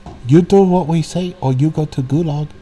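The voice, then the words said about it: Poor put-on Chinese accent. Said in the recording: “that was a terrible Chinese accent.”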